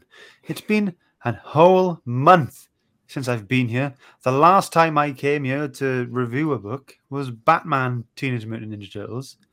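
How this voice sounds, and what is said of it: Welsh accent. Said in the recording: “What's that Welsh accent going on?”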